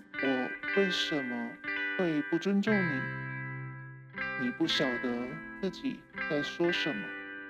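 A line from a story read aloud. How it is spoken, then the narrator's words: Flat, indifferent. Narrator (Chinese): 淡淡的说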